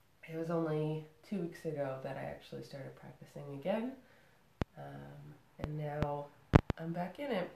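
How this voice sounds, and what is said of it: Congested, stuffy head-cold voice. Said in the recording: “I've got a bit of a head cold, which you could probably hear in my voice ... my congested face”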